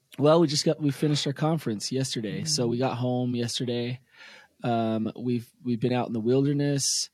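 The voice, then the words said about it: Hoarse, worn-out voice. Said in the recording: “I'm exhausted ... you can hear in my voice, I got half a voice this morning.”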